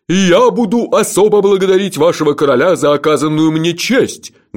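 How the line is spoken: Thunderous voice. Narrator (Russian): громовым голосом поведал нам Алотха Алирох

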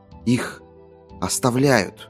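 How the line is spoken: Whisper. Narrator (Russian): прошептал Катберт

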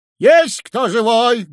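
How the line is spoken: Loud question. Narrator (Russian): громко спросил конь-ветерок

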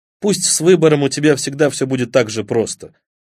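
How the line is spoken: Plain. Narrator (Russian): сказал он

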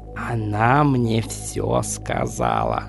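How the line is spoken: Whispered. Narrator (Russian): прошептал он

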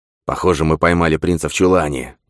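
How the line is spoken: Robber's hiss. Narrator (Russian): прошипел один из разбойников

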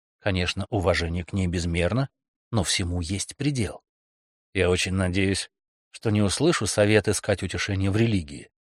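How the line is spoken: Grumbling. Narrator (Russian): пробурчал он

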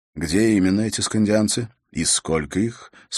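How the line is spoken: Calm question. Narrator (Russian): спокойно спрашивал король вестового

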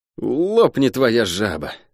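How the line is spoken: Resigned sigh. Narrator (Russian): обреченно вздохнул тот

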